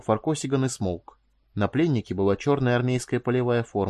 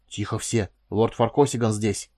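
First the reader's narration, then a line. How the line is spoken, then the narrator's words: Hissing. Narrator (Russian): прошипел кто-то из СБшников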